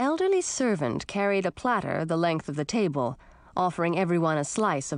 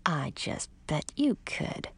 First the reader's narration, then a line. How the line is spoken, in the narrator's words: muttered into my mug